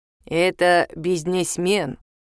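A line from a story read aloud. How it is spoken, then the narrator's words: Old man, soft consonants. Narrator (Russian): говорит дедушка, произнося мягко все согласные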